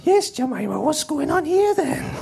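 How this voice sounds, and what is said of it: Higher-pitched put-on Welsh accent. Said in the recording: “a little Welsh child ... Same accent, but higher.”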